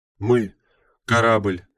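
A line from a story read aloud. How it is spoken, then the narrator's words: Breathless exclamation. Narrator (Russian): выдохнула Чи-32 Бета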